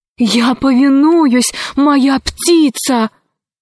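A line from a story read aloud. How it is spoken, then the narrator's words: Exclaimed. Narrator (Russian): воскликнул Арсеки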